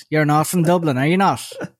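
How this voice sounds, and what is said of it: Put-on Tallaght Dublin accent. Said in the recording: “With the Tala accent.”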